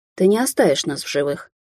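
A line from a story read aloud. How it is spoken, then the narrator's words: Weary, hopeless reply. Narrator (Russian): устало отозвалась я, понимая, насколько сильно мы попали в этот раз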